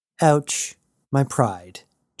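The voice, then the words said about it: Flat deadpan delivery. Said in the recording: “Jazz responded deadpan.”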